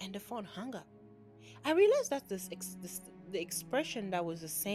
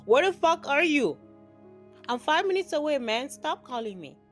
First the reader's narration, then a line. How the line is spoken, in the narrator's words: I called my brother the third time and yelled